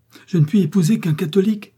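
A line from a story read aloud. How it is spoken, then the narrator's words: Protesting exclamation. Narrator (French): s'écria avec un geste de protestation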